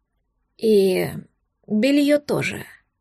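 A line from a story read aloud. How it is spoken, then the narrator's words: Hoarse demand. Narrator (Russian): хрипло потребовал он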